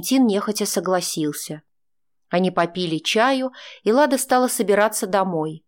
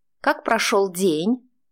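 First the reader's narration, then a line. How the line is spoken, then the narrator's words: Snide question. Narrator (Russian): ехидно поинтересовалась она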